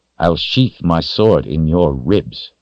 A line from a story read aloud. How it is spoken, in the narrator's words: Richard said through gritted teeth